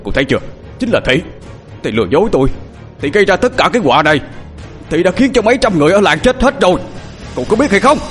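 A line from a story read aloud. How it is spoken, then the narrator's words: Shouting. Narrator (Vietnamese): ông thập hét lên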